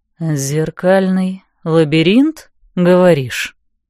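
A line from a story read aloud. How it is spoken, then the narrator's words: Drawling. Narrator (Russian): протянул он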